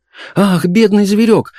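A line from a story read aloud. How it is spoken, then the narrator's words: Sudden change of tone, exclaiming. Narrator (Russian): в один момент переменив тон, воскликнула мисс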